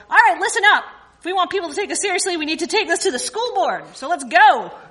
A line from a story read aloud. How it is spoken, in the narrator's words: yelled